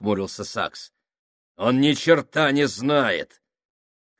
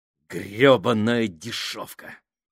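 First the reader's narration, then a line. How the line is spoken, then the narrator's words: Hissed. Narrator (Russian): прошипел Фабрини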